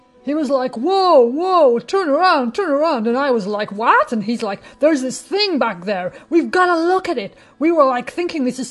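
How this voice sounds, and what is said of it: Deliberately bad American accent. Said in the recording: “a terrible American accent, apologies to our friends from over the pond”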